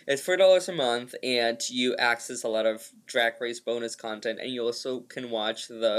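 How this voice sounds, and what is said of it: Usual voice. Nothing is said of it.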